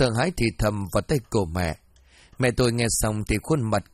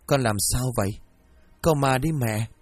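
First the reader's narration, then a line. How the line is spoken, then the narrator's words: Panicked question. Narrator (Vietnamese): mẹ tôi hoảng hốt cất tiếng hỏi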